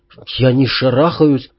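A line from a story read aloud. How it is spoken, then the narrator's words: Mutter. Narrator (Russian): пробормотал американец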